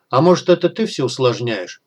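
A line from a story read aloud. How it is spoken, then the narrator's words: Snorting. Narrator (Russian): хмыкнул мессир гильдии воинов ночи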